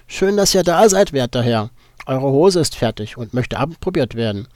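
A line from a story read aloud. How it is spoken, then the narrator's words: Goat-like voice. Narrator (German): begrüßte der Faun mich mit ziegenhafter Stimme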